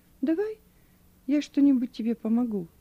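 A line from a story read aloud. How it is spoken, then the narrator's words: Child's gentle voice. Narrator (Russian): девочка ласково говорит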